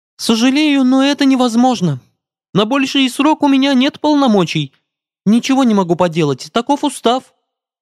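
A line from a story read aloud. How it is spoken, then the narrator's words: Fairy babbling. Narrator (Russian): пролепетала фея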